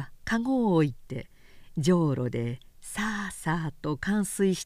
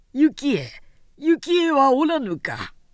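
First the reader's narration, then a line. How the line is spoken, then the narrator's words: Yelling loudly. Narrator (Japanese): とわめき立てた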